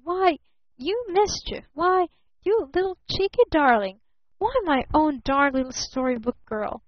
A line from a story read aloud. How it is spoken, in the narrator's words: he stammered